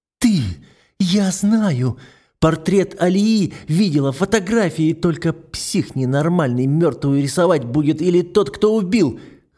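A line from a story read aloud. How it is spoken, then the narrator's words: Hoarse breathless whisper. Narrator (Russian): Хрипло шепчет она, задыхаясь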